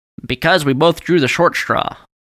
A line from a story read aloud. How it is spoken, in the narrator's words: Bert said